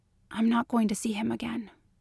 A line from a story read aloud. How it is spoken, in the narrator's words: she whispered